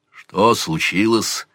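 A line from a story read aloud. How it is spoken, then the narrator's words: Quiet, serious. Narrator (Russian): спросил отец Грук столь же негромко, посерьезнев лицом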